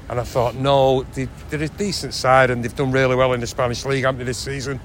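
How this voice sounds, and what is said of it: North Manchester accent. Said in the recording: “North Manchester ... It's a very North Manchester accent.”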